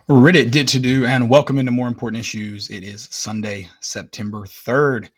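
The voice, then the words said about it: Strained, hoarse voice. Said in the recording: “my voice is struggling a little bit. I did scream a lot.”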